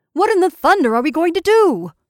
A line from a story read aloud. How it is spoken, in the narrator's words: repeated angrily